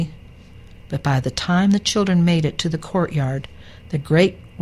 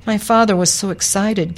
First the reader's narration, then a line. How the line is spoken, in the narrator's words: Kia said